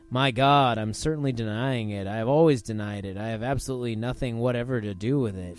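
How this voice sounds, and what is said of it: Put-on regular American accent. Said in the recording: “say that in just a regular American accent.”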